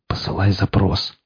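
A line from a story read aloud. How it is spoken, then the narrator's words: Whispering. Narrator (Russian): прошептал Игл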